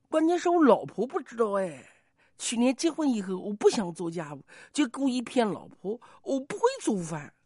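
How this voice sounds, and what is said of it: Quiet, lowered voice. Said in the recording (Chinese): “小声说”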